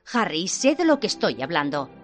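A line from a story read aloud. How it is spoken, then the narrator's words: Curt, sharp tone. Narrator (Spanish): dijo en tono cortante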